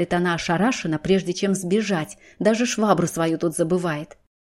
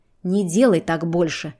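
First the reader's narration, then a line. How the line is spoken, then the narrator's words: Through gritted teeth. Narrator (Russian): произносит Кай сквозь зубы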